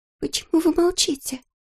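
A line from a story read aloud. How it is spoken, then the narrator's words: Whisper. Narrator (Russian): прошептала Молли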